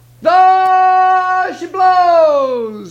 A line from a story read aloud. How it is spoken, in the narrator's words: he hollered